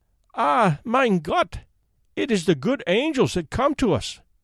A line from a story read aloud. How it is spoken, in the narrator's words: cried the poor woman with tears of joy